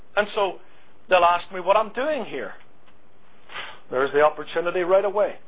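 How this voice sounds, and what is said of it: Non-local foreign accent. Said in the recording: “people hear my accent. Oh, you're not from here”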